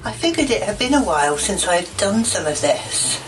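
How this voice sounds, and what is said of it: Older woman, British accent. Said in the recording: “I believe this is an old British woman ... I don't like that accent. It's not sexy.”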